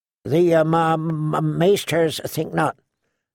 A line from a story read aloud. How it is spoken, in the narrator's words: Sam stammered